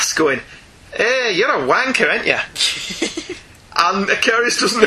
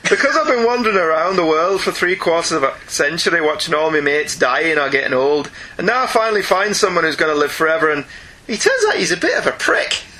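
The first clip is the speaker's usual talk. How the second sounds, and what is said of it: Attempted Irish accent. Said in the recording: “Should I try an Irish accent?”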